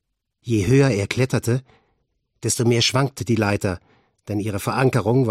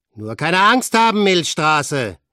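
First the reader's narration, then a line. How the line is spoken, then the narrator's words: Called out. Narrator (German): rief Frank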